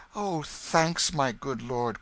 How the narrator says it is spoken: cried the boy

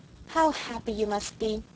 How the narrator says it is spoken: sighed Sarah Ray romantically

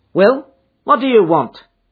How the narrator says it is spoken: she asked sharply

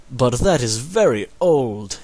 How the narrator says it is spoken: exclaimed his father

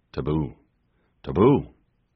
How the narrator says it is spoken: bewildered … solemnly, and murmured

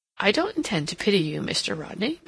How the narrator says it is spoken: Mary remarked, kindly, but firmly

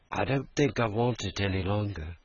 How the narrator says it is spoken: The boy doubtfully murmured

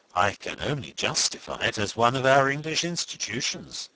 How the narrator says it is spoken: said Vendale quietly

